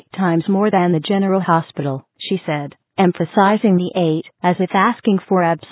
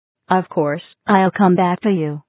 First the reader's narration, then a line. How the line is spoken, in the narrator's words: he replied